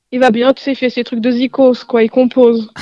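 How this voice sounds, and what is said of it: Slight put-on accent. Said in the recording (French): “Tu, as, tu as pris un petit accent. T'as un petit accent.”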